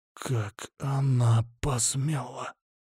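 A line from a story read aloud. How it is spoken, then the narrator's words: Ominous whisper. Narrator (Russian): раздался в мертвой тишине зловещий шепот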